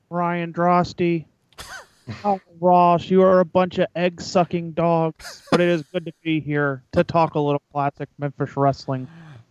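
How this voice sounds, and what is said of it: Terry Funk impression. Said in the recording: “On point, Terry Funk impersonation.”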